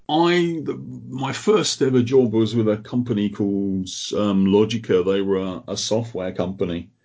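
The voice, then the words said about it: Croydon-ish South London English accent. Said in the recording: “with a Croydon-ish accent”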